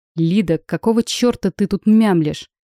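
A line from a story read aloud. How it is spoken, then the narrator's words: Growled. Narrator (Russian): прорычал он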